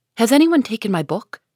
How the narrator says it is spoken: Jo burst into the room, looking excited and demanding breathlessly

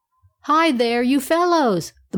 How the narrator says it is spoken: the monkey shrieked

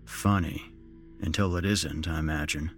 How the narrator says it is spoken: I said dryly

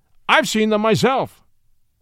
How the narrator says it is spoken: snapped the justice

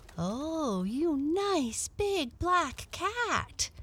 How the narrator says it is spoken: exclaimed the little girl

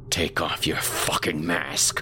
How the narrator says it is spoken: I growled

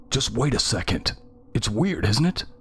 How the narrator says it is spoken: The voice continued to whine, choking between sobs and pleading

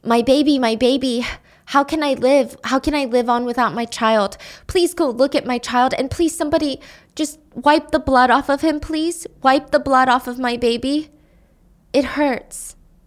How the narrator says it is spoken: One mother cried out

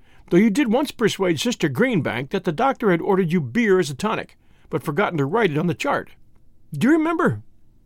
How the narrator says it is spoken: Tommy chuckled

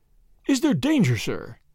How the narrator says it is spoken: gasped Johnson

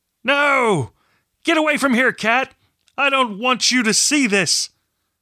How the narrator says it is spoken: raised his tired eyes and screamed

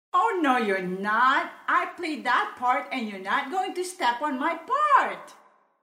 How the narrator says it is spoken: immediately called out from way across the room

